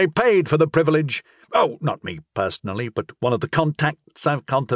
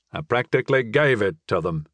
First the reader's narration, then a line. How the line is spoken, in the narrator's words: he said with a mental chuckle